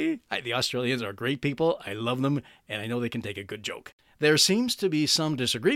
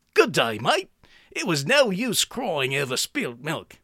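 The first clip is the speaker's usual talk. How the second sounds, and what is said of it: Bad put-on Australian accent. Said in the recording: “I'm going to do my bad Australian accent.”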